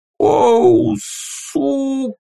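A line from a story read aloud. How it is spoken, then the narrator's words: Howl of pain. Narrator (Russian): взвыл он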